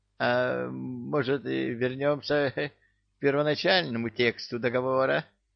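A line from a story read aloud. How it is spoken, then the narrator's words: Timid request. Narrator (Russian): робко попросил Бессмертный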